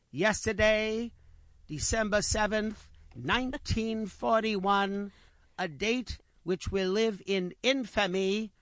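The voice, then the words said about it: Imitates another person's voice. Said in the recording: “I break out into my FDR imitation.”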